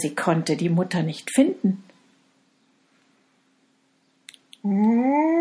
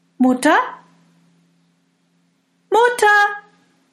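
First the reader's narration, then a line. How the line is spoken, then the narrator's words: Calling out. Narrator (German): rief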